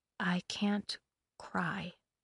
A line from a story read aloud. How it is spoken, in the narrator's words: whispered instead